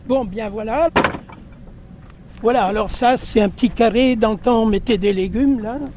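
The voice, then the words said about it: Regional French accent, rolled R's. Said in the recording (French): “mon accent ... Je roule les airs, alors souvent beaucoup de gens rigolent”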